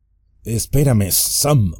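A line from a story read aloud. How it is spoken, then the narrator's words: Stammered. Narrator (Spanish): balbuceó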